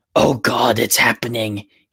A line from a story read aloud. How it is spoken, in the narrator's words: he screeched